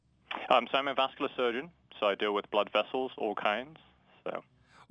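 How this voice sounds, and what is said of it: London accent. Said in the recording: “your accent isn't from North or Central Missouri ... I grew up in London”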